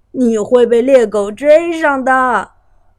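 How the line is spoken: Mocking. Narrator (Chinese): 哥哥们取笑他说

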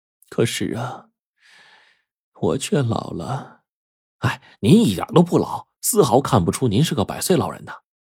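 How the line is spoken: Sighing. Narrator (Chinese): 贞子奶奶感叹了一声，然后说

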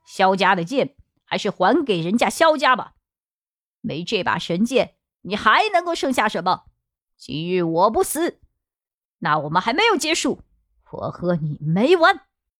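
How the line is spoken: Cold. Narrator (Chinese): 对着柳自和冷冷地说道

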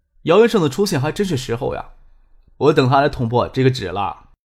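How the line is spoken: Soft laugh. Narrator (Chinese): 张可轻轻的笑着说

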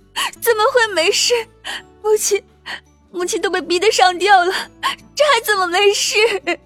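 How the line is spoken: Weeping. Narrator (Chinese): 秦玉茹掩面哭泣

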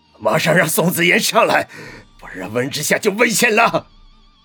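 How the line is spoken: Hoarse roar. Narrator (Chinese): 钱董冲着年轻的职员嘶吼

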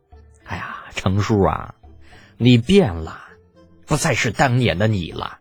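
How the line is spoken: Long wistful sigh. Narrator (Chinese): 只能发出一声悠悠的叹息

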